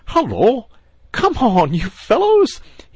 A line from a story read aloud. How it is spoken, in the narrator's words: cried cheerfully